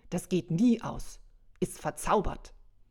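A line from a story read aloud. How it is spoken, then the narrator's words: Blustering. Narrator (German): polterte ich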